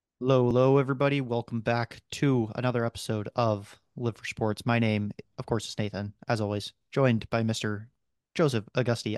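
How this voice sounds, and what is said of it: Robotic voice. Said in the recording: “I am talking in robot voice at the moment.”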